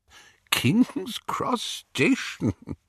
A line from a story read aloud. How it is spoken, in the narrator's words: Dumbledore was chuckling immoderately